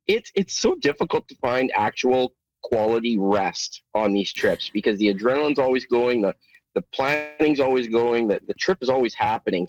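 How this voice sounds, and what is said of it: Slightly rough, run-down voice. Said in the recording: “I'm run down. ... My voice is a little rough”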